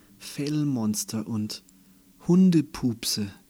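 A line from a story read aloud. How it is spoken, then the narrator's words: Sighed. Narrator (German): er seufzte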